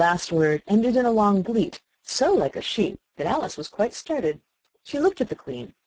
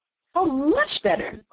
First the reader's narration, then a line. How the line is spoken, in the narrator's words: cried the Queen, her voice rising to a squeak